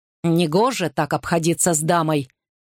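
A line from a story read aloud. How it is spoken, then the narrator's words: Growl. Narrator (Russian): прорычал Гарри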